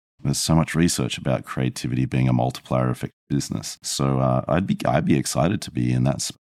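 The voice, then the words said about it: Australian accent. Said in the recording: “an Australian accent”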